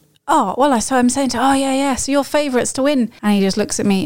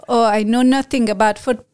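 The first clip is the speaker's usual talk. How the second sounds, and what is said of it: Attempted French accent. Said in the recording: “I'm going to try and do a French accent here.”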